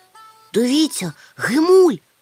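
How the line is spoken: Exclaimed. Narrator (Ukrainian): вигукнув Мумітроль

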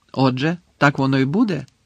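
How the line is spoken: Angry question. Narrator (Ukrainian): сердито запитав Гаррі

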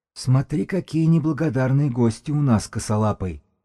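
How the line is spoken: Hoarse priest. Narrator (Russian): прохрипел жрец

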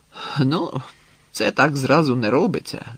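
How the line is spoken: Sighing. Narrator (Ukrainian): зітхнув Грицик

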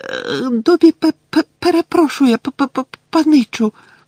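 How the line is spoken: Frightened squeak. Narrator (Ukrainian): злякано запищав Добі

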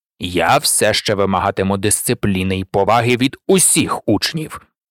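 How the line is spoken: Cold. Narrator (Ukrainian): холодно сповістив Северус

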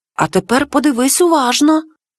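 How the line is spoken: Whispering again. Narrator (Ukrainian): знову зашепотів Макуле

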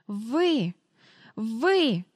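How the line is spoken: Stammering wheeze. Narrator (Ukrainian): заникуючись хрипіла міс Ендрю

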